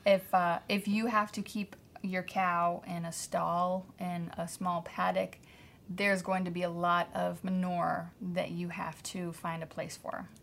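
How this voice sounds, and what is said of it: Pennsylvania accent. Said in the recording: “You have such a Pennsylvania accent when you say manure.”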